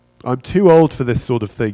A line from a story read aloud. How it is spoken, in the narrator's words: he said